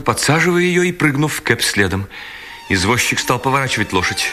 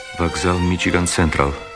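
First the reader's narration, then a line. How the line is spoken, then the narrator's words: Very quiet. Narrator (Russian): сказал ему Герствуд так тихо, что Керри не могла его слышать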